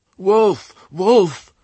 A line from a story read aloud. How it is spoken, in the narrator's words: cried the flock, every sheep immediately on edge